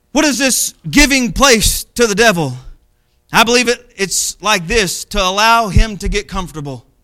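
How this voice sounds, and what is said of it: Southern American Arkansas accent. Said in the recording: “my home in Benton, Arkansas, now you might catch my accent. ... I am from Arkansas, and I may have an accent”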